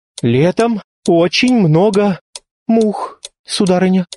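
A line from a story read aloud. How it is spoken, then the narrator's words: Half-trembling voice. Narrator (Russian): произнес он полудрожащим голосом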